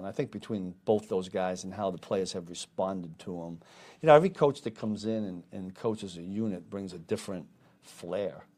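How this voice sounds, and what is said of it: Boston New England accent. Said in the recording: “We're both from the Boston area in New England, talk the same. If you talk to Joe, he has the same kind of accent. I don't know whose is worse. ... I never lost mine.”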